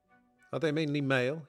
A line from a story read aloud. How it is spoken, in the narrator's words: asked